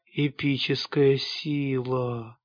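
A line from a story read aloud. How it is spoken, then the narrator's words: Awed whisper. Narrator (Russian): прошептал я, не в силах оторвать глаз от процесса творения информационного аналога в пошаговом режиме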